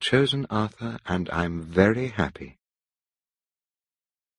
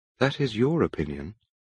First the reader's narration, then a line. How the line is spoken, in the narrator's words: I said gently